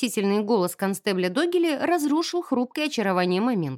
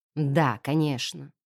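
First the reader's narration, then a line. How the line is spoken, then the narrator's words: Annoyed mutter. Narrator (Russian): с досадой пробормотал Эттон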